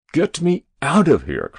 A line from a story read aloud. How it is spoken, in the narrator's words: cried the president